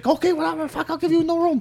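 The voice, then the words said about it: Put-on Chinese accent. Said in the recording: “The Chinese people own the ... Using the accent.”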